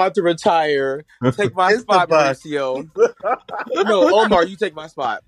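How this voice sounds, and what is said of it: Usual voice. Nothing is said of it.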